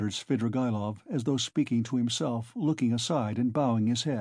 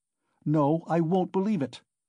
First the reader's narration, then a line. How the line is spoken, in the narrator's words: Raskolnikov cried with positive anger